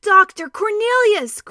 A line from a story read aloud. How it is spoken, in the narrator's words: cried Caspian with joy